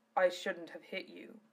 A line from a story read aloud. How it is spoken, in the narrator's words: Zello said in his low voice